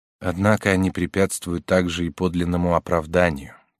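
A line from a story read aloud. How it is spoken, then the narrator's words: Quiet, ashamed. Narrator (Russian): тихо сказал Ка, словно он стыдился того, что это постиг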